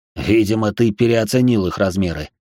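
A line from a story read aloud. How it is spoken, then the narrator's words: Medium's scoff. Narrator (Russian): хмыкнул медиум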